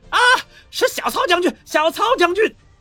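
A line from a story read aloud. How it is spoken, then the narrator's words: Terrified shouting. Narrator (Chinese): 有眼尖的官兵惊恐的大声吼道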